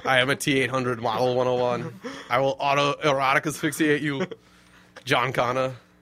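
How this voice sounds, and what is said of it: Imitates another person's voice. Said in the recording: “Imagine Arnold saying that. ... That was a great impression.”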